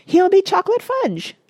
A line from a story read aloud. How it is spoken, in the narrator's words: shrieked Mrs